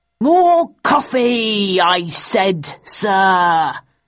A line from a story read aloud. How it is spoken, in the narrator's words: roared Phelps to the waiter